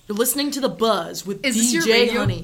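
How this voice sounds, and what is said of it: DJ radio announcer voice. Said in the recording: “Is this your radio voice I'm getting, your character?”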